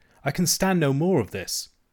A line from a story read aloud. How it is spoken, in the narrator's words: cried